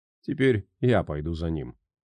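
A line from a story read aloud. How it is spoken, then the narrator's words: Calm. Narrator (Russian): спокойно ответил тот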